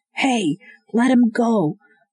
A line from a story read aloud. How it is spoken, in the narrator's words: a man yelled